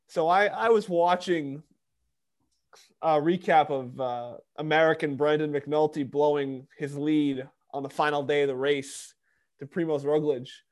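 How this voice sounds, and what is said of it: New York accent. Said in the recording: “that's the New York accent where I start cutting off a few letters here and there”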